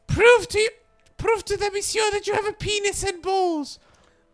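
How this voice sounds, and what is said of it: Impression of the speaker's mom. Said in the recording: “does a really good impression of my mom”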